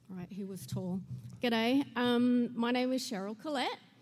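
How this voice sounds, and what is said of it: Southern US accent. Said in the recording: “Man, that southern accent.”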